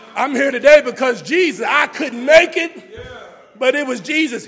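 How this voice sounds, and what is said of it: Shouting preacher delivery. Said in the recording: “I'm shouting”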